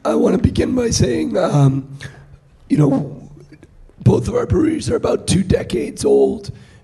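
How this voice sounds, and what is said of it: Hoarse, nearly lost voice. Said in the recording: “I have lost my voice. ... the last of my voice”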